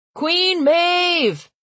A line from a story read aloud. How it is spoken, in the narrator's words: Ian shouted from the audience